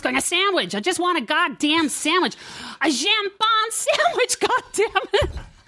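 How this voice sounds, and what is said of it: Bitchy American accent. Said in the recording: “fucking really good bitchy American accent. That was fantastic. That was really fantastic.”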